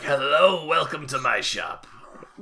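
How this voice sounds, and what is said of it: Shopkeeper character voice. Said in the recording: “That's my bargy voice... Not do a bargy voice.”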